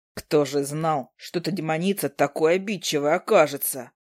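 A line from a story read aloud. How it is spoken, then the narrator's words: Mumbling. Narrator (Russian): Пробурчал он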